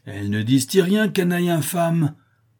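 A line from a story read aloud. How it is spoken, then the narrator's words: Furious exclamation. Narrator (French): s'écria Don Quichotte enflammé de colère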